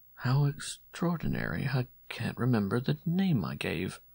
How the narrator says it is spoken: Rivenot stopped suddenly, murmuring

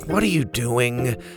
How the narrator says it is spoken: Bo sighed

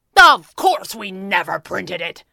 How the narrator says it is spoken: Pearly thundered

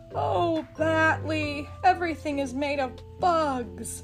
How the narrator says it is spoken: Magellan moaned

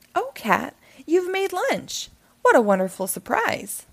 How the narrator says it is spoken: she said happily

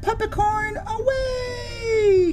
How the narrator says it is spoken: Kia shouts

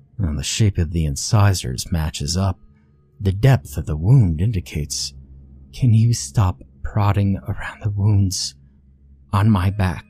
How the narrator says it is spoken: the girl muttered, cringing in pain

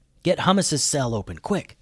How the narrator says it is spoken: whispered Alex

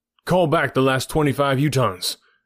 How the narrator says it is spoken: shouted

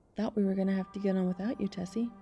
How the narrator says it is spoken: Summers, who had been waiting, said cheerfully

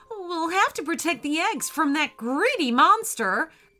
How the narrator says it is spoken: cried the friendly octopus

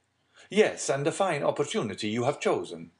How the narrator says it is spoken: exclaimed Andrea

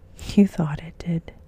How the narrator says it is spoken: said the old lady soothingly

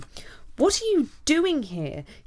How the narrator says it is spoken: he said angrily

